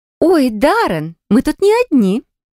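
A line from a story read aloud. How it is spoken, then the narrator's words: Cheerful young woman. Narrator (Russian): весело произнесла девушка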